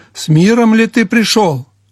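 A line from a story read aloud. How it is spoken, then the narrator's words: Shouted question. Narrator (Russian): крикнул Иорам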